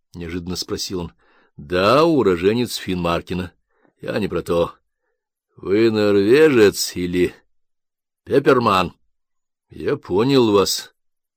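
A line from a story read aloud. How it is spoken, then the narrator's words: Plain. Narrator (Russian): ответил Кальдовин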